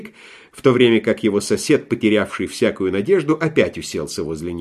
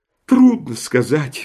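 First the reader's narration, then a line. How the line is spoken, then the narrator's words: Sighing. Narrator (Russian): вздохнул тот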